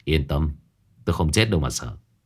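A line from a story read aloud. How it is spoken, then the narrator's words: Soft laugh. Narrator (Vietnamese): Phong Đình khẽ cười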